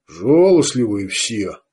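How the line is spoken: Grumbling, no longer angry. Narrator (Russian): бурчал Арток, но уже без злобы

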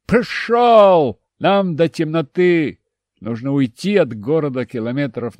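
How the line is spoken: Shout. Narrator (Russian): крикнул

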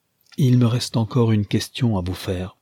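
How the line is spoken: Plain. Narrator (French): lui dit-il

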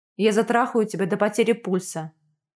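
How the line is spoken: Growl. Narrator (Russian): прорычал

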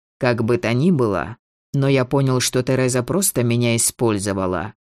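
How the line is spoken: Dry. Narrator (Russian): сухо завершил он

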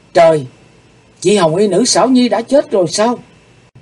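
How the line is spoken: Startled cry. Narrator (Vietnamese): Hắc Phụng Hoàng thẳng thốt kêu lên

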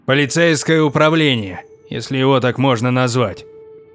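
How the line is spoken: Dry explanation. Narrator (Russian): сухо пояснил Торвальд

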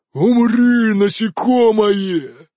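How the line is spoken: Triumphant roar. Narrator (Russian): торжествующе взревел огненный элементаль

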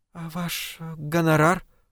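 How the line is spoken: Timid young woman asking. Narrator (Russian): робко спросила девушка

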